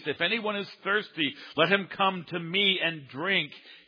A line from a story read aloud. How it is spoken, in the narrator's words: The one who cried